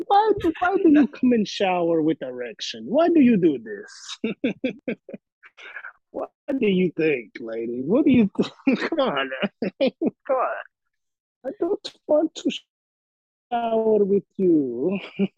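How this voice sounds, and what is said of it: Exaggerated Eastern European accent. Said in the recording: “some like model with a terrible accent... her fucking Eastern whatever accent.”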